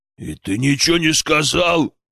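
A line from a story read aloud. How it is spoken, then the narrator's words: Bear's roar. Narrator (Russian): рявкнул медведь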